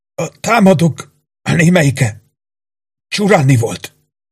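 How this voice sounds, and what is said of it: Strained, effortful whisper. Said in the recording (Hungarian): “erőlködve suttogni kezdett”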